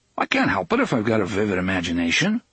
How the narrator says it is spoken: Eddie said cheerfully

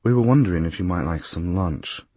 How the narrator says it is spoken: my guide said quietly

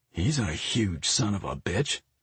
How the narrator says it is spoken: Mike muttered

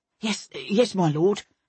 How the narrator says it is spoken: stammered the footman

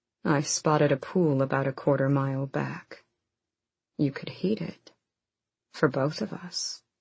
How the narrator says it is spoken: Rowan murmured against her neck

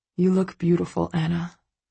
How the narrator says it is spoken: he murmurs and smiles

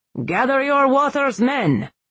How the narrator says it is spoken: he barked

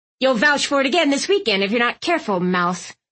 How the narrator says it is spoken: Aunt Tilly snapped

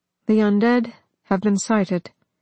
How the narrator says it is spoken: told calmly

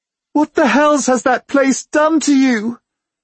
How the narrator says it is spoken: She cries

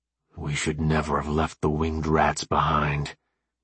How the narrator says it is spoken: Jones tried to whisper to AJ, but failed miserably

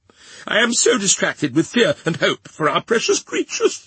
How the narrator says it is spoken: said Miss Pross, wildly crying

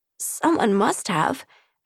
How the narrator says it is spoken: I croaked

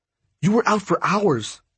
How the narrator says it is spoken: Brooks said in an urgent tone

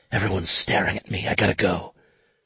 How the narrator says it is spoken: she whispered into the phone

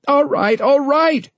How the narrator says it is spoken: she cried

